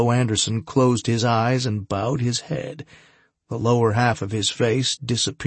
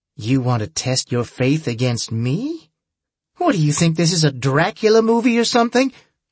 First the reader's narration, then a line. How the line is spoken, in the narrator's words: Susan's dark silhouette laughed